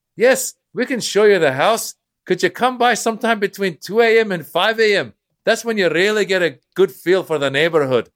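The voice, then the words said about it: Put-on Irish accent. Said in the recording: “doing an Irish accent. ... Thank you for the accent.”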